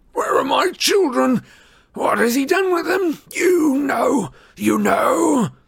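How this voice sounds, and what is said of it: Cracked, high-pitched, distraught bellowing. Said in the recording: “he bellowed ... His voice was cracked, high-pitched. He sounded distraught.”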